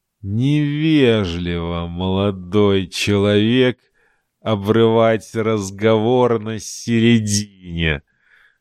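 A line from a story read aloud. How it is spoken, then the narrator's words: Menacing hiss. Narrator (Russian): прошипел Сунгат, недобро улыбаясь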